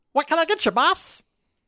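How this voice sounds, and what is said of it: Funny character voice. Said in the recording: “funny voice”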